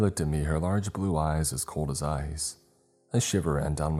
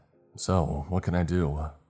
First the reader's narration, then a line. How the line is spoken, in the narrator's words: I asked